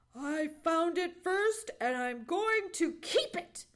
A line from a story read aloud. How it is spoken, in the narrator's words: snapped Johnny Chuck